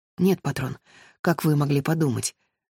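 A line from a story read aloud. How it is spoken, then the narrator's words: Embarrassed, shaken mutter. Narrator (Russian): смущенно пробормотал Пауло, потрясенный нелепостью этих слов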